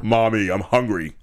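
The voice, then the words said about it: Baby character in deep voice. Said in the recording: “With a deep voice.”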